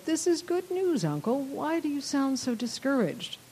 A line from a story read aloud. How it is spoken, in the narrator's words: smiled sweetly, not yet knowing Ragnell's specific proposal, and said